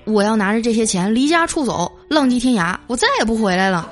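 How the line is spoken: Joking. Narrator (Chinese): 跟我妈开玩笑说

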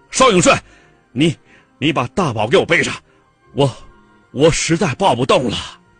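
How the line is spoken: Panting, shouting. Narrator (Chinese): 沙飞是气喘如牛啊，冲画报社的炊事员大喊

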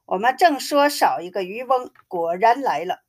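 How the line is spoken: Group laughing. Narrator (Chinese): 众人笑着说

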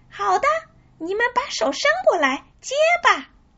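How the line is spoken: Loud call. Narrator (Chinese): 汤姆又敞开嗓门叫道

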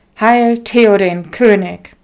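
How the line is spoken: Loud call. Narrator (German): der Anführer der Wachen vortrat und laut ausrief

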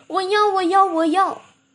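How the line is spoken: Hurried shouting. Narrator (Chinese): 赶忙跑来喊着

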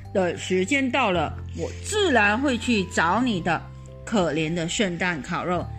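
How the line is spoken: Sighing. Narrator (Chinese): 卡尔汉茨叹口气说

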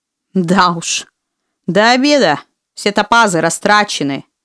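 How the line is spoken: Grumbling. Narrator (Russian): проворчала дракониха

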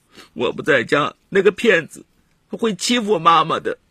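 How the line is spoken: Crying. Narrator (Chinese): 他哭着说

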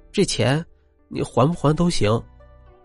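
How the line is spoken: Quiet, soft. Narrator (Chinese): 邵兰英……小声的说

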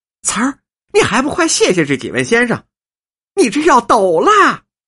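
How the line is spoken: Calling by pet name. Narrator (Chinese): 叫着白牡丹的小名说

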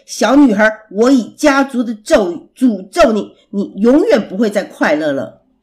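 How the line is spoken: Furious roar. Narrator (Chinese): 王子大吼着

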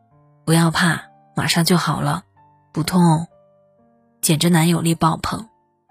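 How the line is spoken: Soft comforting. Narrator (Chinese): 还轻声安慰道

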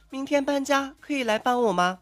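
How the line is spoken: Pitiful voice over phone. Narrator (Chinese): 女神电话里的声音楚楚可怜

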